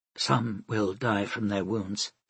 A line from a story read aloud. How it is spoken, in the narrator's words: she said quietly